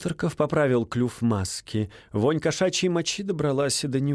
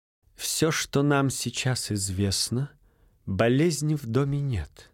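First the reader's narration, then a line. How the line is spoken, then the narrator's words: Soft reasoning. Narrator (Russian): мягко рассудил англичанин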